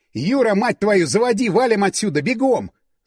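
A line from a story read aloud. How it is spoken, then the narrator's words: Yelling, releasing pent-up tension. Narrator (Russian): Заорал я, выпуская все напряжение последних минут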